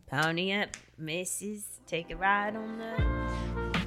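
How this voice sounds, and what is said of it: Put-on Australian accent. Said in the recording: “Now go into your southern accent ... You're down under. That's fully that was your best Australian you've ever done.”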